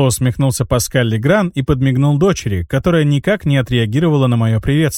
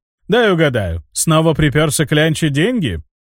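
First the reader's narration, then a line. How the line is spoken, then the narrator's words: Gloating chuckle. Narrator (Russian): он злорадно хохотнул и произнес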